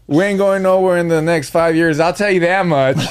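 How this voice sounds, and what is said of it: Put-on country accent. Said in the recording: “throw in that country accent”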